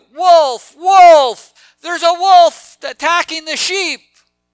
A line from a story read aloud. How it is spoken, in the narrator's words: the boy, when he was bored, he cried out